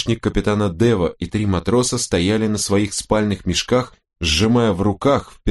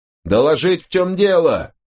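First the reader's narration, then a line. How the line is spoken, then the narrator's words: Barked. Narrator (Russian): рявкнул Гор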